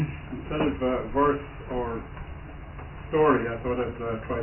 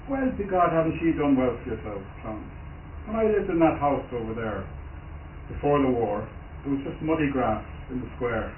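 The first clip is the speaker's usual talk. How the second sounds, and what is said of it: Put-on West Cork Irish accent. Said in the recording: “I'm not much good at the accent... I'm ashamed to do the West Cork accent”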